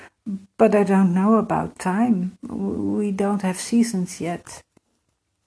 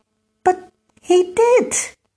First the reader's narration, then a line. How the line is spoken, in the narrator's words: Emir shouted